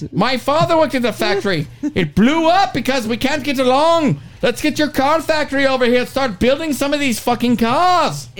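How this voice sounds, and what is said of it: Put-on Irish accent, fairly passable. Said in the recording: “At least he can kind of do the accent.”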